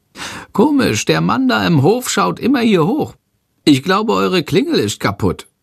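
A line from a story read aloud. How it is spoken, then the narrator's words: Called out flustered. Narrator (German): ruft und schlägt hektisch mit den Flügeln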